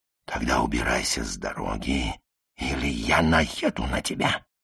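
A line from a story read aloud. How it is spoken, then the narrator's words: Weak, tender dying whisper. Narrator (Russian): Бун, умирающим голосом, слабым и нежным, как любовный шепот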